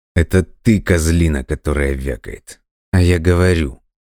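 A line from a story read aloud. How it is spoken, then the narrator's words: Through clenched teeth. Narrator (Russian): сквозь зубы процедил Дима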